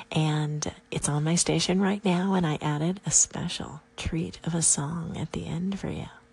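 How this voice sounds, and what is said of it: Mesmerizing accent. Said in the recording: “Your accent, it just is mesmerizing”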